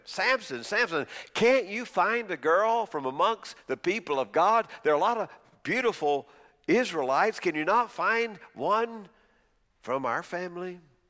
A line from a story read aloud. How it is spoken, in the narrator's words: His parents pleaded